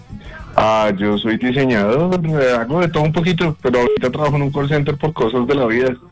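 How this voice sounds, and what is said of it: Radio announcer-like voice. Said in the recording (Spanish): “¿Le han dicho que tiene voz de locutor?”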